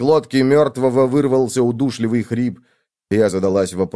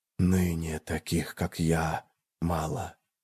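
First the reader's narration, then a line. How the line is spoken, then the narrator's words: Whispered reply. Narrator (Russian): ответил шепот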